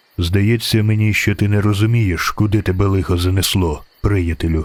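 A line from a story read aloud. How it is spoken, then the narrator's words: Calm. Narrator (Ukrainian): Спокійно сказав незнайомець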